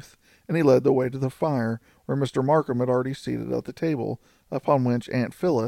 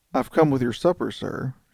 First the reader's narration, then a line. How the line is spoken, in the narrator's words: she said quietly